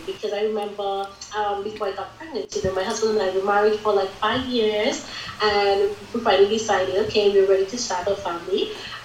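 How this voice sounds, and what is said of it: Vincentian Caribbean accent. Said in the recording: “where this accent is from. I am from the Caribbean island of St. Vincent and the Grenadines originally ... so there's not a British accent.”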